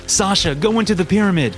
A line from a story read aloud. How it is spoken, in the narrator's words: yelled